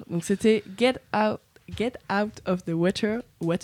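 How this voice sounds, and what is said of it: Poor English pronunciation, heavy French accent. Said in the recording (French): “oh là là, mon accent anglais, c'est une catastrophe.”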